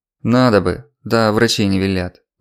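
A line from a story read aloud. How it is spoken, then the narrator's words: Sighing. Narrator (Russian): вздохнул Алексей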